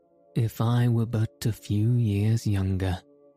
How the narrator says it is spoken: added the old diplomatist with a sigh

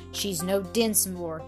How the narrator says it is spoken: he said coldly

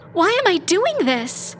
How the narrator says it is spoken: She cried out

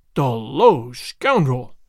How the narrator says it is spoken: the governor exclaimed

